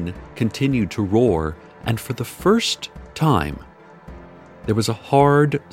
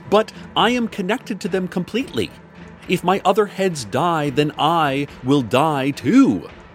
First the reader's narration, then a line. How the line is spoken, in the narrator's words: Violet shouted